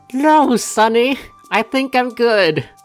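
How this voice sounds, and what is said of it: Old lady character voice. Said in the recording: “old lady voice.”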